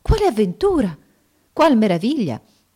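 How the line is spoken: Amazed exclamation. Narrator (Italian): Restò assai meravigliata al vedere le ulive mischiate alla polvere d'oro, sicché esclamò

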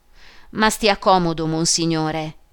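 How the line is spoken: Exclaiming. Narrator (Italian): esclamò il sottoprefetto

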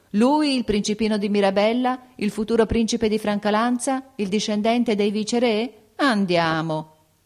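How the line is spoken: Incredulous laughing exclamation. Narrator (Italian): ridevano di incredulità, esclamando

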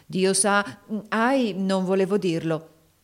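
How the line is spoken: Breathless, comically apprehensive exclamation. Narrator (Italian): esclamò, ritenendo il suo respiro con un comico gesto di apprensione

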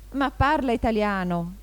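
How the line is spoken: Young eagle's exclamation. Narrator (Italian): esclamò l'aquilotto

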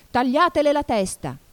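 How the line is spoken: Screamed at full voice. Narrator (Italian): urlò la regina con quanta voce aveva

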